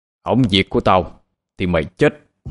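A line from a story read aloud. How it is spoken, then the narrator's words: Harsh menacing voice. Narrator (Vietnamese): gằn giọng nói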